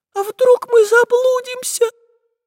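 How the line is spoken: Tiny thin voice. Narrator (Russian): тонюсеньким голоском произнесла Настенька

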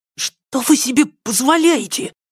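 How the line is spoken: Heated hushed exclamation. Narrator (Russian): Запальчивым шепотом, дабы не привлекать внимание купальщицы, воскликнул юнец

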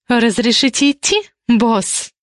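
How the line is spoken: Sarcastic. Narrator (Russian): Язвительным тоном уточнила

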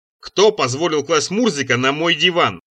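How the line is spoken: Growling. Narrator (Russian): зарычал

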